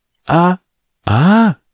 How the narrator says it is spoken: cried one of the guards

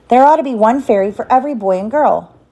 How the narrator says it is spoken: he went on sweetly

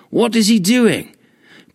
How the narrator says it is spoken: people shouted up

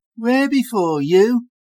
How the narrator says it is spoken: the little yellow-haired girl whined, accusingly

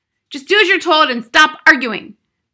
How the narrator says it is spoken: the father snapped

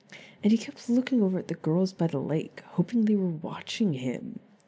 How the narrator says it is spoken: Harry snapped

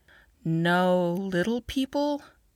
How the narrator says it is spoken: Katie asked softly

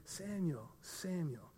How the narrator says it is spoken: whispered

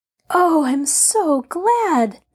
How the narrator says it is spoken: Nancy exclaimed in relief

